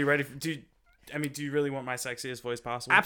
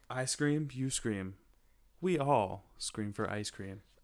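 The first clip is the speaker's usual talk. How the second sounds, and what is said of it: Exaggerated sexy seductive voice. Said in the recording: “in your sexiest voice possible”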